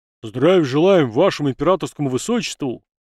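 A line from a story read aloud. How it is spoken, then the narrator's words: Barked loudly. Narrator (Russian): рявкнул первым пришедший в себя унтер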